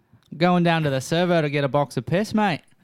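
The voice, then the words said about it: Put-on Australian accent, pretty good. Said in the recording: “who's got the better Australian accent here? ... That's pretty good.”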